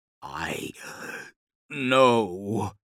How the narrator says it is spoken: he croaked

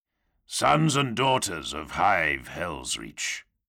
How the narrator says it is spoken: the voice boomed, too low and resonant to be human, flavored by the slight crackle of vox corruption

